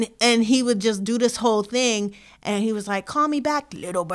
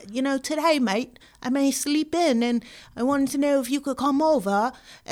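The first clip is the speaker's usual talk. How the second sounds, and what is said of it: Put-on Australian accent. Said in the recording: “he started speaking like he was Australian. I don't want to butcher the accent”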